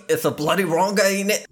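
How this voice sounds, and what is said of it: Poor put-on British accent. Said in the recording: “secretly British ... you know I'm bad at accents.”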